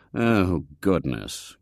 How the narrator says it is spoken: groaned Mr

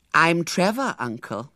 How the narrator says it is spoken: said the apparition

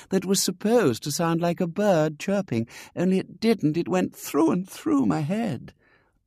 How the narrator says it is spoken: said Ethel dreamily

